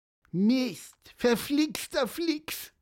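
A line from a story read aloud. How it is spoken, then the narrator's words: Squeaky. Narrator (German): piepste Pieper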